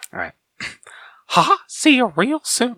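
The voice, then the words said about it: Mickey Mouse cartoon voice. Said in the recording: “do the Mickey voice ... That was awful.”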